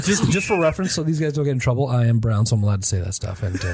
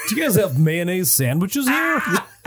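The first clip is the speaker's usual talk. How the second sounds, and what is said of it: Put-on white American accent. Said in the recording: “have an extra white accent”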